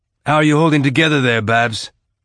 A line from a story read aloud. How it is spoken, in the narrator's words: Amos asked